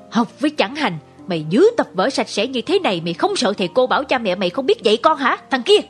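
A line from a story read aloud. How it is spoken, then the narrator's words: Growling. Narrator (Vietnamese): gầm gừ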